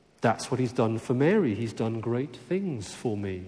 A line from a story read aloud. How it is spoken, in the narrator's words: she says